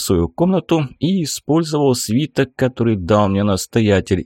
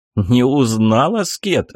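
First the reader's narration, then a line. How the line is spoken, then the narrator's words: Laughing. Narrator (Russian): рассмеялся я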